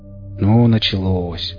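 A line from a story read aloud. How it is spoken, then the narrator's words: Sigh. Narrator (Russian): вздохнул я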